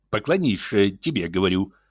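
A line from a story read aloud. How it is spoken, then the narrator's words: Insistent grumbling. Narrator (Russian): ворчал настойчиво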